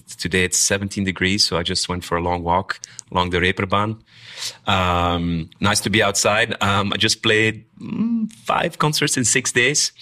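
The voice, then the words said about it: Slightly strained, under-the-weather voice. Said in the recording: “As you can hear, my voice is a little bit under the weather”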